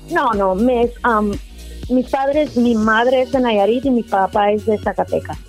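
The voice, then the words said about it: American accent in Spanish. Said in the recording (Spanish): “escucho en tu acento así como que te escuchas así como, como muy americana.”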